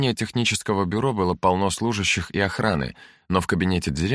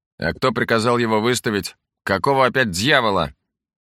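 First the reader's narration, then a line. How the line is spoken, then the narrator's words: Angry bark. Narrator (Russian): Сразу рявкнул на него Лей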